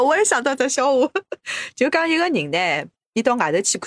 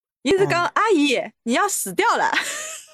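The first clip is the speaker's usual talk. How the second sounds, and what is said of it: Shanghai-accented Mandarin, flat-tongue sounds. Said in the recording (Chinese): “伊上海个搿种口音啦 ... 上海话发音侬想钥匙钥匙嘛，也是拨个平舌音了”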